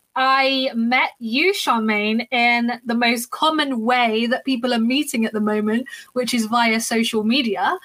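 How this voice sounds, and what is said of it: London British accent. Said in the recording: “I am from London in the UK, as you can probably hear by my accent.”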